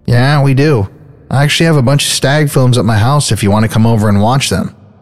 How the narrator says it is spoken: Gacy chuckles and says

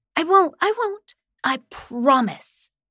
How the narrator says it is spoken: I said excitedly

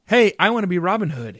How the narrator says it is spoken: shouted

